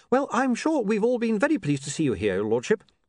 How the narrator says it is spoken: said William brightly

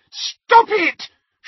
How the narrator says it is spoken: shrieked Petunia

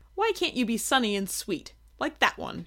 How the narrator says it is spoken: she snapped

